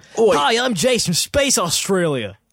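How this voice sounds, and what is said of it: Put-on Australian accent. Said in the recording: “this Australian. There's always these accents”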